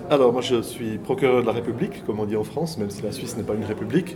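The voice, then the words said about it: Swiss French accent. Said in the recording (French): “il y a un Suisse dans l'Assemblée ... j'arrive déjà pas à cacher mon accent, donc je peux pas me faire passer pour un auteur français”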